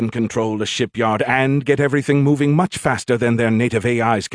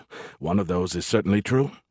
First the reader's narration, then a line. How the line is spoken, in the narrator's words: he muttered